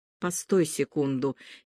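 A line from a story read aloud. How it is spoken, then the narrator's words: Nervous whisper. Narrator (Russian): нервно шепнул он Марине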